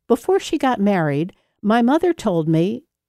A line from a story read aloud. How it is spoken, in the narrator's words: engulfed him in laughter